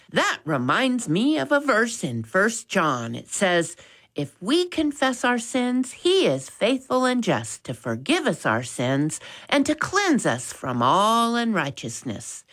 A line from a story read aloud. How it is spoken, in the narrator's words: always willing to share a verse of scripture with his errant brother, and pleased he wasn't the one in trouble, piped up and said